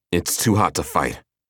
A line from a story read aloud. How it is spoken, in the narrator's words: Killian answered